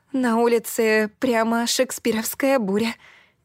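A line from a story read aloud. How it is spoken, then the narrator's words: Nervous giggle. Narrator (Russian): нервно хихикнула я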